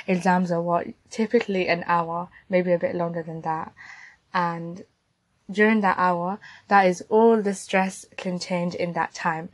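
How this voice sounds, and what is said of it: Strained, losing voice. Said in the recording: “I literally lost my voice during this”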